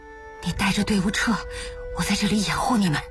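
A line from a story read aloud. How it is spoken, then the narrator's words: Panting, soft, urgent. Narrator (Chinese): 他喘息着，轻声急促地说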